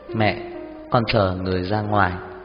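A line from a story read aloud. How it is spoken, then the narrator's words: Smiling. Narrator (Vietnamese): Anh mỉm cười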